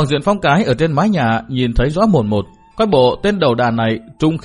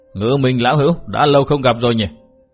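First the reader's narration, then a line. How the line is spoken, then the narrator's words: Sneering snort. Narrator (Vietnamese): Đầu đà nọ cười khẩy, hừ nhạt một tiếng, nói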